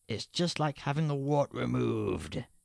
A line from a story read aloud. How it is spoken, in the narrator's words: He wails at her in a strange voice and says